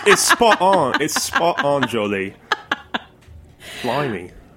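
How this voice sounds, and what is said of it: Bad put-on British accent. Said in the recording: “And I'll do a British accent. ... That's terrible. Don't do that.”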